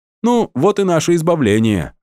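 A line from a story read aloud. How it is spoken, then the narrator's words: Cheerful proclamation. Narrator (Russian): весело провозгласил шаман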